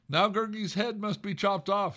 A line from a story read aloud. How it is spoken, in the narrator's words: the creature moaned